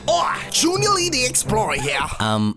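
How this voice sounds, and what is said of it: Unconvincing put-on accent. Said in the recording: “That accent is talking good at all”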